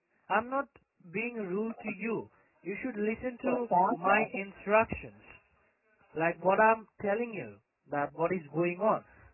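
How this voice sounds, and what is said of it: Sri Lankan accent. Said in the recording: “You have an accent. ... It is Sri Lankan.”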